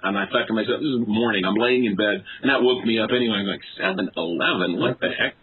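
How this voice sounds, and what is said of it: Usual voice. Nothing is said of it.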